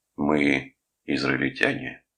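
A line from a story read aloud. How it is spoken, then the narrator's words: Gloomy. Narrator (Russian): мрачно сказал он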